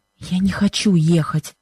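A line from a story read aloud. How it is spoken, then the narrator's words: Pained whisper. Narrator (Russian): шепнула она Бену с выражением страдания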